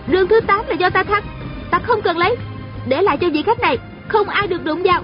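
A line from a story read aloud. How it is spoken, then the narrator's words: Shouted. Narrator (Vietnamese): A Cửu la lên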